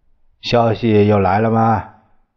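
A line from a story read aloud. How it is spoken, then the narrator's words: Calm, indifferent question. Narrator (Chinese): 蒋介石淡淡的问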